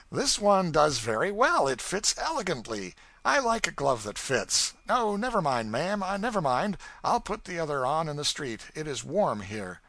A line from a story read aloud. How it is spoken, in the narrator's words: I felt exquisitely mean when I said cheerfully